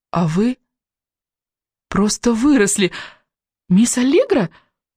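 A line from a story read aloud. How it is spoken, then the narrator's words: Half question, half exclamation. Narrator (Russian): то ли спросила, то ли воскликнула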